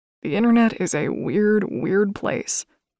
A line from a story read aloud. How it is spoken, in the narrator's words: Kale groaned with a hint of amusement